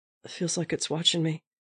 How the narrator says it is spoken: Bucky said quietly

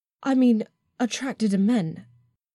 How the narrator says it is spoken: I gasped

